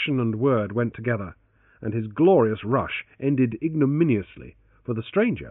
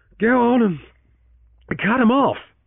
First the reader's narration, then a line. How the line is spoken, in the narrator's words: Francis gasped, with the first of his returning breath